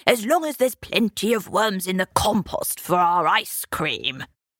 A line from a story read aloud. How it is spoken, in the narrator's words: grunted the Brockenhursts